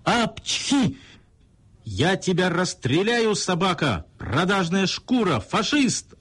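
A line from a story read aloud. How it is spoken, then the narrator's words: Muffled yelling. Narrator (Russian): орал начальник в подушке фальшивой мумии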